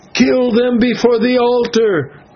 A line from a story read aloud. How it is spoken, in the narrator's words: they shouted